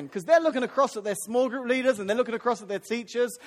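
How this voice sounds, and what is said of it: Unfamiliar, unusual accent. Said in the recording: “Who's that guy with the weird accent?”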